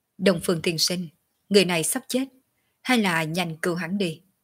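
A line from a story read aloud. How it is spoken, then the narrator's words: Cold. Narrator (Vietnamese): Quần kiếm lạnh lùng nói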